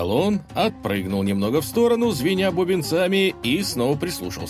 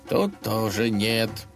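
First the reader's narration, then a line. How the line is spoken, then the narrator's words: Muttered. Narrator (Russian): пробормотал он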